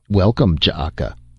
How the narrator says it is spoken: the man said

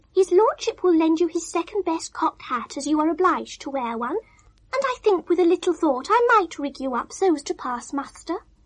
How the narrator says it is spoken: said Pecurio kindly

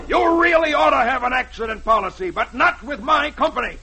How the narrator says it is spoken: He yells back at Archie

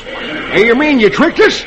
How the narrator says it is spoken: California exclaims

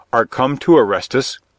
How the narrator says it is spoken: called out Robin

